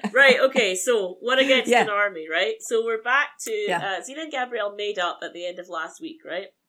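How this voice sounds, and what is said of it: Scottish accent. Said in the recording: “Most jokes work better in my accent because Scottish accents are inherently funnier.”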